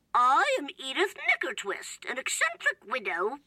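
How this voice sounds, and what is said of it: Put-on British accent. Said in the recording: “obviously ... doing a British accent”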